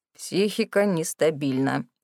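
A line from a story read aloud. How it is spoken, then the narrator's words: Muttered. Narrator (Russian): пробормотал доктор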